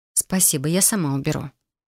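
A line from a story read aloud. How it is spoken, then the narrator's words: Soft mutter. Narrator (Russian): Пробормотала я мягко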